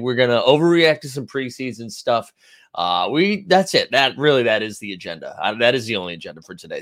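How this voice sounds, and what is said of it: Congested, stuffy-nosed voice. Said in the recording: “we are battling the elements a little bit this morning. So I'm sorry if I sound a little congested... down so bad”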